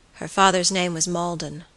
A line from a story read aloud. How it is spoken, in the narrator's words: George muttered